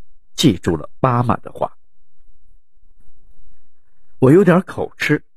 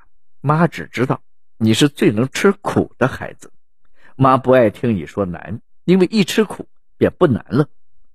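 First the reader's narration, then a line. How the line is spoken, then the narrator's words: Smiling, warm. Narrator (Chinese): 母亲竟然一脸笑容的回答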